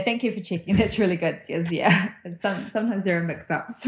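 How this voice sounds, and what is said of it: New Zealand accent. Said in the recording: “I love your accent. I love New Zealanders”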